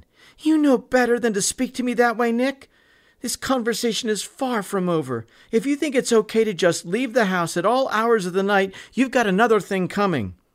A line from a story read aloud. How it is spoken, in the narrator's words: Mary shouted back at her son